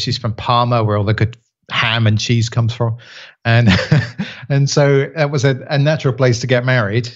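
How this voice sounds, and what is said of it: English accent. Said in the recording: “as people can possibly tell from your accent, you're actually from England originally ... I'm a Kent lad”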